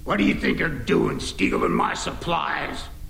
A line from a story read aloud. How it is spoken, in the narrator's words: a mountain of a man who snarled